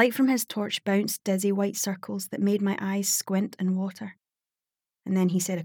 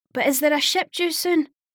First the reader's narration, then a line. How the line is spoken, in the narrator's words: Elle tried to shout